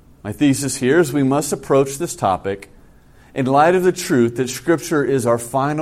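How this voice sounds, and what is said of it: Usual voice. Nothing is said of it.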